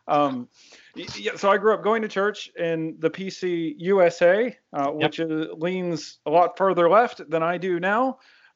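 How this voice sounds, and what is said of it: American, not Northern Irish accent. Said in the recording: “It's a denomination in America. Yeah, you can probably tell by my voice. I'm not Northern Irish.”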